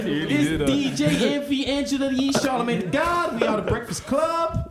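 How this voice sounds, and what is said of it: Imitating The Breakfast Club radio hosts. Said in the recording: “sound like Breakfast Club”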